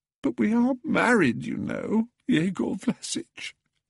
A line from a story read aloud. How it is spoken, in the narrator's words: sobbed Pelagia